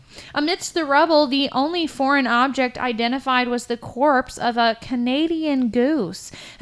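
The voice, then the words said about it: Polished news anchor voice. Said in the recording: “how fucking great am I doing a news anchor voice? ... Yeah, that was really good. ... your ability to read news anchors so well”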